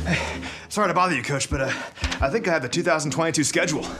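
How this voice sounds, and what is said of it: Breathless, panting speech. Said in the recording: “You're a little bit out of breath”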